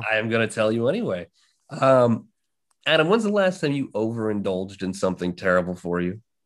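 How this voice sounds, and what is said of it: Slightly worn, strained voice. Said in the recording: “I was screaming at the top of my lungs ... my voice is a little out of it.”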